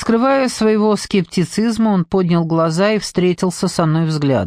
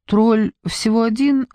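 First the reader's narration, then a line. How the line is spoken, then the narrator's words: Timid reply. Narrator (Russian): робко ответила я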